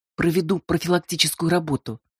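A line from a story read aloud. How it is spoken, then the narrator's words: Snapping retort. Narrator (Russian): огрызнулась Ирина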